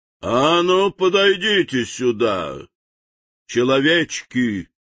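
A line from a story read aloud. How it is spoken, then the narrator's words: Thunderous menacing command. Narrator (Russian): грозно приказал волшебник, и его голос прозвучал, как раскат грома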